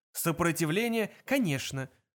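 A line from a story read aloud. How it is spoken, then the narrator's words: Hurried interruption. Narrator (Russian): торопливо перебил Форд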